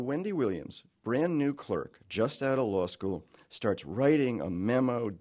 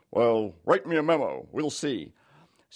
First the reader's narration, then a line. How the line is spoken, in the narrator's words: Her judge, Raymond Peters, says, as she recalls in his gruff voice